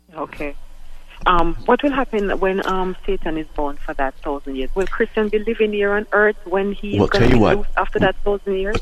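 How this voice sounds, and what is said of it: Caller with a noticeable accent. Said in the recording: “love your accent”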